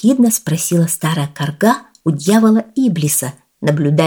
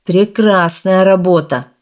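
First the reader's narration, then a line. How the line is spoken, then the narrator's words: Scornful snort. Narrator (Russian): фыркнул дьявол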